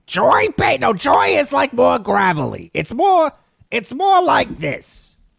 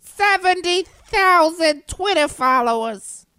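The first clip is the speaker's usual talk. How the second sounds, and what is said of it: Put-on old lady voice. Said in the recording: “my general old lady voice”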